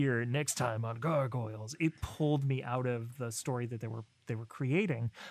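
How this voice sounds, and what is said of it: Usual voice. Nothing is said of it.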